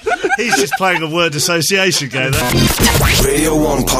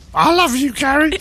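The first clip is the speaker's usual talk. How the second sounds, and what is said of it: Squawking parrot impression. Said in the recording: “a parrot owner was alerted ... his talkative pet let the cat out of the bag by squawking ... do a little impression of how that might have sounded”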